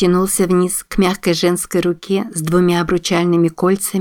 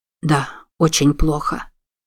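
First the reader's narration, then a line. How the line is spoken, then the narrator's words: Muttered. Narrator (Russian): пробормотал мистер Пердью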